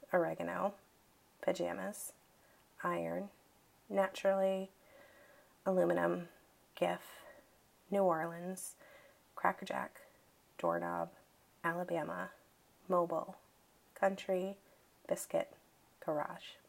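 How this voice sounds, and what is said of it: Natural regional accent. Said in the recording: “You will probably not hear this accent much going forward ... it's something that I tend to mask a bit”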